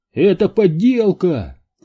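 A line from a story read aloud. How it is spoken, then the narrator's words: Shout. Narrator (Russian): крикнул кто-то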